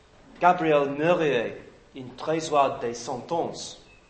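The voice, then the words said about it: French-accented pronunciation. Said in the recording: “great French accent, wasn't it?”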